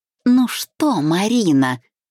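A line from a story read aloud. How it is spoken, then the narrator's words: Drawled, openly mocking. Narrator (Russian): процедила она, протянула с нескрываемой издевкой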